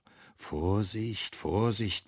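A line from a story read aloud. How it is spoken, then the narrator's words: Boy cautioning himself. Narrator (German): mahnt der Junge sich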